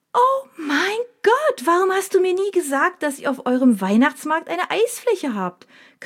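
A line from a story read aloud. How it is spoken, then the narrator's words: Sudden shriek. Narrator (German): kreischt Mina plötzlich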